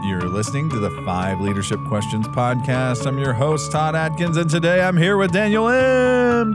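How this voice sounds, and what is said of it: Exaggerated radio announcer voice. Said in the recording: “Was radio voice more than you usually do.”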